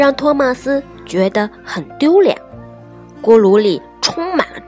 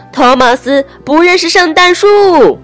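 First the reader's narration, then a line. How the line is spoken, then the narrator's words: Calling out. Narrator (Chinese): 邓肯又到处喊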